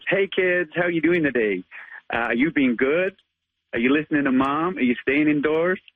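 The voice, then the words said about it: Weak put-on American accent. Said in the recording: “give us your American accent as Spider-Man ... I'm not the best at accents, but I do try”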